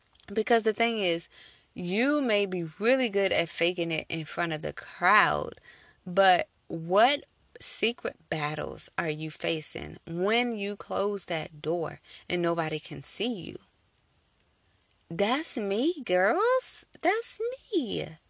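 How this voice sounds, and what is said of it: Cheerful, happy-sounding voice. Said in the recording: “I sound so happy right now. I'm laughing. I'm joking. Like, I sound so cheerful.”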